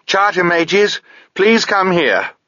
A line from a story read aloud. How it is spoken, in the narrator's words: Sabriel shouted